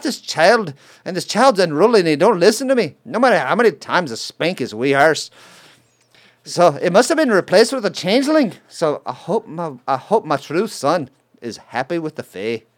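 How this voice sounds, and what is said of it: Bad put-on Irish accent. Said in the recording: “my bad Irish accent ... that was painful to your ears”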